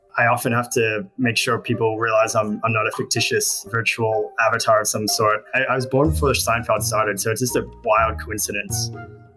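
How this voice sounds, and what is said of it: Australian accent. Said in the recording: “I was born in Australia. I don't know if you noticed this, an accent.”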